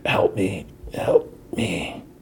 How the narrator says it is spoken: He's like rambling, and, and number two whispers

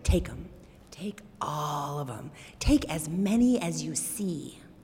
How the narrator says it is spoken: he leaned forward, and he whispered in the farmer's ear

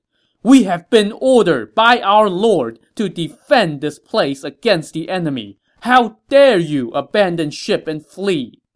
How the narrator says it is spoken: Dong Xi yelled

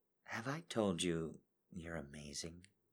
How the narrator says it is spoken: She whispers

